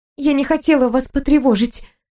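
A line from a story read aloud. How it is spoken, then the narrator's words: Timid babble. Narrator (Russian): пролепетала я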